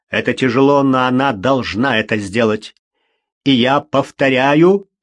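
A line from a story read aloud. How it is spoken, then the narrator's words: Barked. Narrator (Russian): рявкнул доктор Фелл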